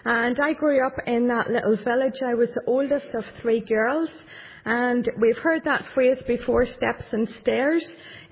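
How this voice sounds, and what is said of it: County Tyrone Northern Irish accent. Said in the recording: “you'll know already from my accent, I don't come from the city or anywhere near the city. I come from County Tyrone”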